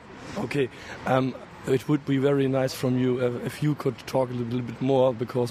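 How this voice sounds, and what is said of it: Voice affected by a cold. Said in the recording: “my voice is a bit I... I catch the cold”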